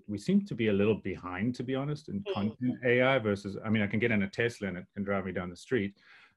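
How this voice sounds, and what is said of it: Speaker's own unusual accent. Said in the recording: “my weird accent”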